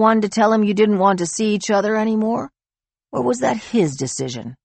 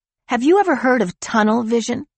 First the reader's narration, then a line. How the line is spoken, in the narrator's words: She blurted